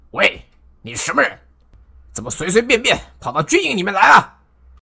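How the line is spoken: Loud demanding question. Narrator (Chinese): 曹仁立刻大声问道

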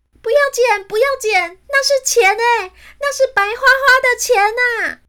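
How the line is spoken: Desperate shouting. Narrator (Chinese): 珍妮佛……只能在地面上喊着

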